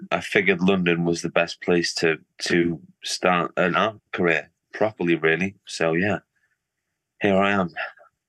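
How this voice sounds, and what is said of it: Northern English, Liverpool-like accent. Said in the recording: “your accent sounds um, more to the north of England. ... hear the Liverpool accent.”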